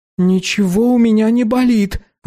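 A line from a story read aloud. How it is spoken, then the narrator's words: Angry exclamation. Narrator (Russian): рассерженно воскликнул Эльдар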